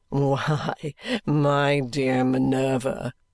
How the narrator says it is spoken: answered Richard with his old gay laugh

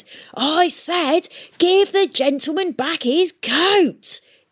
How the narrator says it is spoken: he shouted

